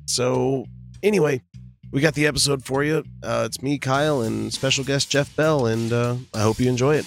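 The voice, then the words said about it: Hoarse, shredded voice. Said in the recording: “my voice is completely shredded from doing a concert last night”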